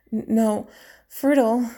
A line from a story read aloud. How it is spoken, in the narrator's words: she moaned in warning